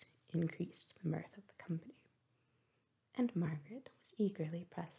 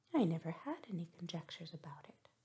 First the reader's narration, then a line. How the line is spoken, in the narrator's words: replied Margaret